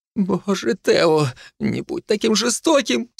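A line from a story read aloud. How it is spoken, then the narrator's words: Woman sobbing. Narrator (Russian): всхлипнула женщина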